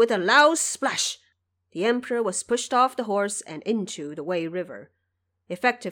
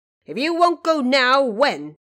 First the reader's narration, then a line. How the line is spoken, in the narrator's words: The marshal shouted